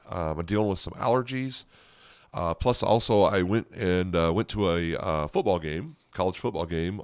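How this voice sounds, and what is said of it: Hoarse voice. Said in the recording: “My voice is a little hoarse ... my voice, of course, is a little hoarse from that as well”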